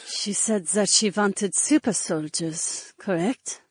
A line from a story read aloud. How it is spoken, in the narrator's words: the guard murmured